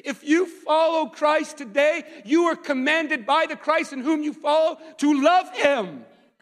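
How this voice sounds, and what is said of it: Shouting, raised loud voice. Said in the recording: “sorry for yelling ... I yell sometimes”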